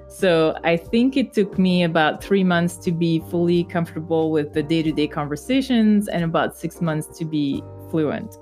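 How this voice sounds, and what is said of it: Slight French accent. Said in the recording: “I'm sure you can hear a little French accent when I speak, but you have to admit it's not that bad.”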